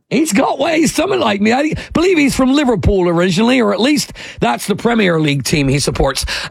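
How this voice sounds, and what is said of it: British accent. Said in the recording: “He's got your accent. ... that British dude”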